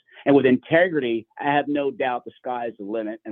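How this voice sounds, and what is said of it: Excited, enthusiastic voice. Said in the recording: “Hope you can tell that in my voice.”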